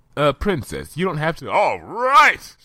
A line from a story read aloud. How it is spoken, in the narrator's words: Spike shouted